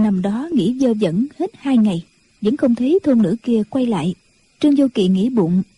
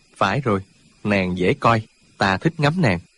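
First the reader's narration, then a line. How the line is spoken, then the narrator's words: Muttering. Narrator (Vietnamese): Chàng không nhịn được, bèn lẩm bẩm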